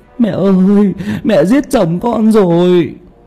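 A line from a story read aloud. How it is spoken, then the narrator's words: Sobbing, wailing scream. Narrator (Vietnamese): Mợ ré lên ... khóc nức nở, gào ầm lên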